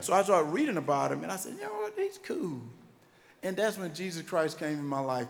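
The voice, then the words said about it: Country accent. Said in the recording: “people today say I sound terrible. I'm like, guys, I'm from the country. If I sound like I was from New York, nobody in Wrightsville gonna understand me. So I gotta sound like where I'm from.”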